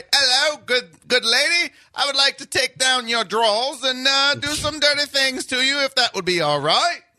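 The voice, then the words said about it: Proper-sounding imitation British accent. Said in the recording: “If a Brit talks dirty, it's like ... even when Brits get raunchy, it's still proper”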